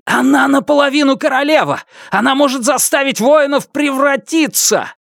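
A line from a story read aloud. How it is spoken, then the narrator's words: Piercing shout. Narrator (Russian): Жемчужина пронзительно крикнула окрылённым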